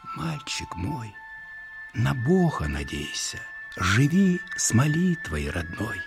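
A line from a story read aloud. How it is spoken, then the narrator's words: Soft bedtime whisper. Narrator (Russian): Укладывая спать, она другое шептала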